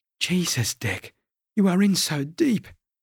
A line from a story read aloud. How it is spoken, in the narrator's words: Charlie moaned